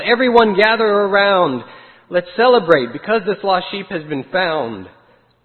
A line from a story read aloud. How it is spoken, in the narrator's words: the shepherd yelled